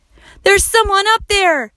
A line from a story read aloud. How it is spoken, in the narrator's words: yelled Max